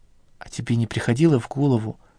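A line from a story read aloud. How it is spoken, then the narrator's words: Quiet question. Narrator (Russian): тихо спросила Соня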